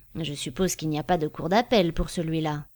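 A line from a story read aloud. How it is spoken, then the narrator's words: Murmured. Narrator (French): murmura Pratchett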